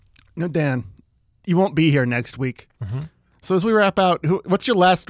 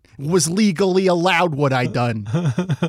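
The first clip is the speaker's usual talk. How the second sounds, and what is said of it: Attempted Boston accent. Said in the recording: “I can't do a Boston accent. ... Is that Boston?”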